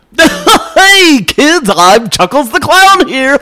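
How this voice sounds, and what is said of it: Goofy clown character voice. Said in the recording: “I just like doing that voice for James ... it reminds me of some guy in Hollywood who's a voice of some early 80s children's ... like Bozo ... he's acting like a clown”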